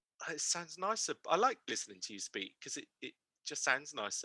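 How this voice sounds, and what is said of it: Bristol accent. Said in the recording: “I just sound so common ... I'm a Bristolian, it's a very thick set accent ... my Bristol accent”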